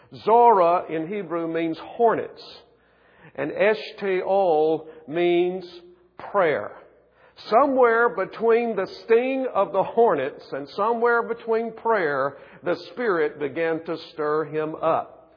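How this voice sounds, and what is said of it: South Carolina Southern accent. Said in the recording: “I was raised in South Carolina, and you probably hear it in my accent”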